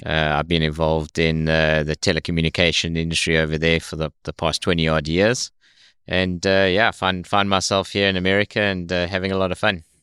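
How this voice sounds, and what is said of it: South African English accent. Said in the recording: “your accent is a little bit different than the typical Southern drawl ... born and raised in South Africa”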